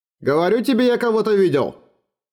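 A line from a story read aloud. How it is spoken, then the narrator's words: Shouting. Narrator (Russian): кричал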